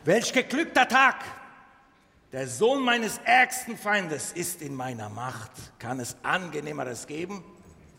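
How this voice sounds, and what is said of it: Put-on Turkish accent. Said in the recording (German): “türkische Akzent”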